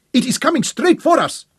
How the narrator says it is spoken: Abeli shouted

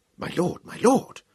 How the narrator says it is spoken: Kratos whispered urgently

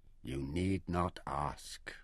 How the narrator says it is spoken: Taita said softly

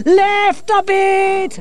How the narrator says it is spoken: Angelo shouted

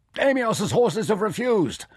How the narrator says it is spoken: Nefer shouted across at Mirren

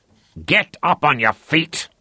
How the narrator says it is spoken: Lothar snarled at him

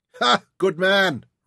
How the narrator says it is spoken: Ryder laughed

